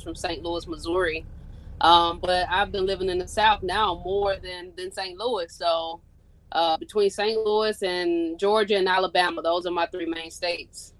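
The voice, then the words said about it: Midwestern accent mixed with Southern. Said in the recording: “I can hear the accent from the both of y'all ... you definitely got that Missouri slang going on right now ... Midwest, yeah, but now we got a little mix of Southern in it”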